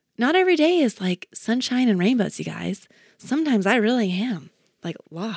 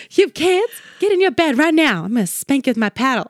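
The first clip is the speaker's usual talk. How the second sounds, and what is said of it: Put-on Southern US accent. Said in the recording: “I always talk in a southern accent.”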